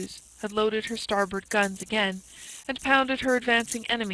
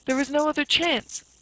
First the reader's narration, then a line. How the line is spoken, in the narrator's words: cried Blood, in broken-hearted frenzy